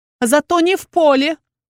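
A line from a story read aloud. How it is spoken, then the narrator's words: Furious shout. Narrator (Russian): уже вконец разозленная выкрикнула я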